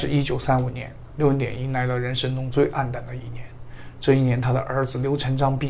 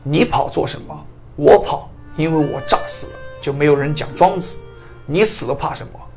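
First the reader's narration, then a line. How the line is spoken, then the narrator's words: Stern shout. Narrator (Chinese): 刘文典便厉声喝道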